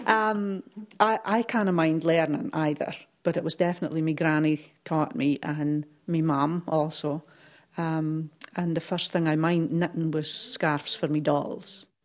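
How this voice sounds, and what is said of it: Shetland dialect. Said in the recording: “a dialect all their own. It's part Scottish, part Scandinavian, part uniquely Shetland.”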